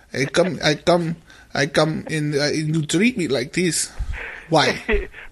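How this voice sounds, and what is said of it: Funny accent. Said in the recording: “you have a funny accent”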